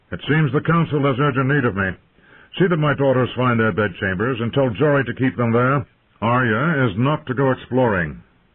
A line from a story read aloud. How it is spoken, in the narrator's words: Ned called out